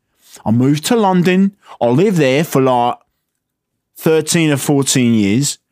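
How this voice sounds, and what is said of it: Put-on British Cockney accent. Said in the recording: “British accent stuff ... That's why I sound so Cockney.”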